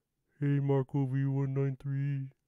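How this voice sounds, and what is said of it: Imitated cartoon character voice. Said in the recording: “my impression of him”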